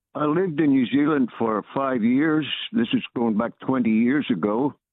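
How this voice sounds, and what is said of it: Northern Irish accent. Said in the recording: “As you can probably tell by my accent, I'm from Northern Ireland originally.”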